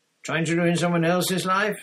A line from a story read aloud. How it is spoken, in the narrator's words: said Harry loudly